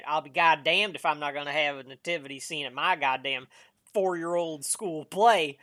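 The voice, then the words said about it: Put-on Southern American accent. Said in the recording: “I don't know why I did a southern accent for that.”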